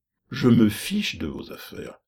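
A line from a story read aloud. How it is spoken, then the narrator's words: Exclaim. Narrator (French): s'écria Pécuchet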